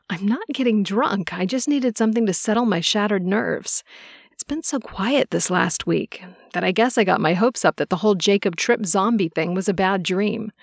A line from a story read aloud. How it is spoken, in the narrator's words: I said in a lighthearted tone